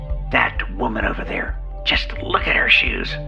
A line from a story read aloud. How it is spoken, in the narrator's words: She whispered back, saying with real venom and a sneer